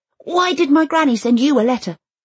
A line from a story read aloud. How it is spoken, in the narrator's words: gives Elsa the courage to blurt right out